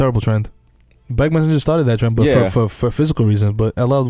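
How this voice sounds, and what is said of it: Usual voice. Nothing is said of it.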